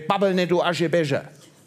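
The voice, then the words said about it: Put-on Hessian dialect. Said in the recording (German): “Der Hesse sagte”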